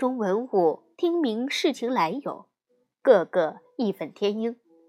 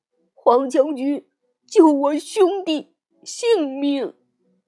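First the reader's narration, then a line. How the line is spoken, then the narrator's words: Crying plea. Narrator (Chinese): 殷郊哭着说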